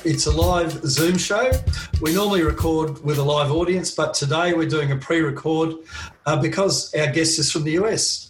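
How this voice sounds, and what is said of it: Australian accent. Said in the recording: “an Aussie accent”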